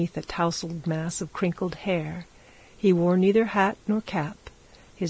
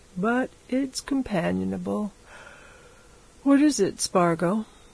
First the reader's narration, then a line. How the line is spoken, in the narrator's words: he said, yawning